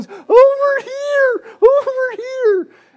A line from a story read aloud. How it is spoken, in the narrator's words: Reagan just starts waving his hands and screaming at the top of his lungs